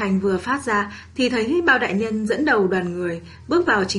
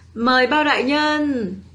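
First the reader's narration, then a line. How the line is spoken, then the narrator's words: Hurried raised voice. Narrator (Vietnamese): Bát vương vội cao giọng nói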